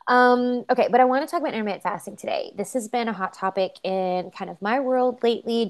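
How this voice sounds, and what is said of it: Nasal, congested voice. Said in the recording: “I sound nasally. Well, because I have one side of my nose is stopped up. So if I sound nasally, it's because I am.”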